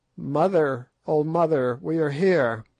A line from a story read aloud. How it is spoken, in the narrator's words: one of them cried out